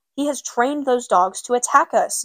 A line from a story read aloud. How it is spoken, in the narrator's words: Gary cried